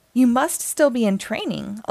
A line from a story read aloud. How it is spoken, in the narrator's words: Electro laughed